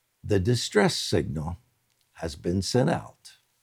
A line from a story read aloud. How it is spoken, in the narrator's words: spoke to me, that is to Gina, very calmly